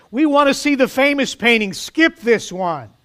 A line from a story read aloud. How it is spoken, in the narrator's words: a voice in the back of the room shouted out